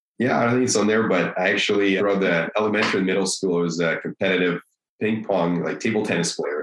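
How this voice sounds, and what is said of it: Russian accent. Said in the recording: “I love the Russian accent, man. It's just the coolest.”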